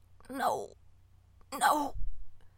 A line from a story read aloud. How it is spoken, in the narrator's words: he croaked